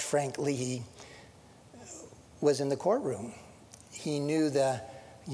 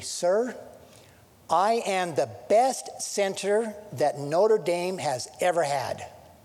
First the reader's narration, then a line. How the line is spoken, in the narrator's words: said firmly